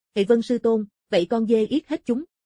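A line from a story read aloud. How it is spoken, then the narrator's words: Relieved loud laugh. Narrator (Vietnamese): Phi bồng lòng an tâm, cười lớn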